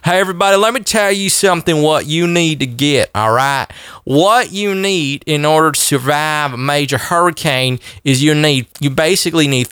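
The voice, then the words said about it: Put-on Southern cracker accent. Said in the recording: “I'm an old Southern cracker ... put on my cracker voice”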